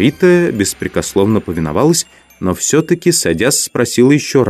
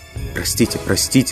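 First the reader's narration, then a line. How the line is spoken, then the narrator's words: Meek muttering. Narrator (Russian): бормотала покорная теперь Маргарита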